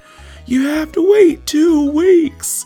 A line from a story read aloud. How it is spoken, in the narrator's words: just started yelling